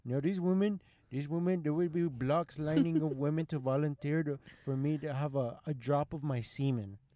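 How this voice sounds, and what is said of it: Bad put-on Indian accent. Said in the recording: “like in a full Indian accent. I have a terrible Indian accent. ... it's bad from the start”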